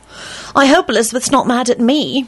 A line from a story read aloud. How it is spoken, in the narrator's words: Rosie said nervously